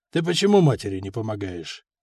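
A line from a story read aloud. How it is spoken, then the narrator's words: Soft half-question. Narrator (Russian): Вроде бы мягко, полувопросом спросил, но сразу понятно, неспроста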